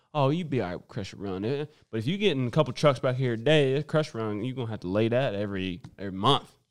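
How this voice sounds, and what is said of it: Put-on regional accent. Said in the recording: “How am I doing with my accent? ... That's good. You're going to be right at home, boy.”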